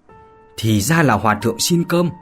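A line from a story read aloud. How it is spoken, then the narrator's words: Hissing voice. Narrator (Vietnamese): rít giọng mà nói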